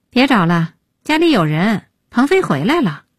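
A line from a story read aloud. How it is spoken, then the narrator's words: Sighing. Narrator (Chinese): 叹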